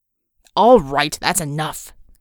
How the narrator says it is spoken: Christian barked

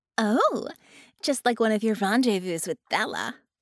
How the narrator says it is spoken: Harmony laughed

